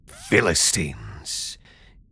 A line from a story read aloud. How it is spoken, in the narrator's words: he snarled